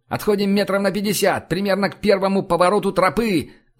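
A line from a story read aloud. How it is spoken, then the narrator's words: Yelled. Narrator (Russian): заорал я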